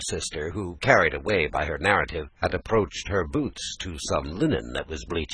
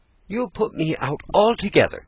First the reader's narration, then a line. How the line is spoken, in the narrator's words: cried Laura angrily